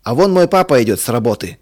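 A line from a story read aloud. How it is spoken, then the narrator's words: Shouting. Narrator (Russian): крикнул Толик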